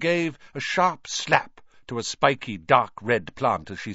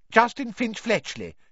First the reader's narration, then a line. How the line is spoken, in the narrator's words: he said brightly